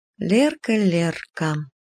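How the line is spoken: Slow. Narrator (Russian): медленно сказала Лена

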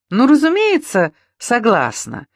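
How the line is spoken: Cheerful. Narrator (Russian): весело сказала

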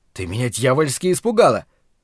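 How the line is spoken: Roaring. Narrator (Russian): проревел он

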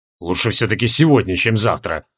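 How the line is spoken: Grumbling. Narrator (Russian): проворчал Джориан

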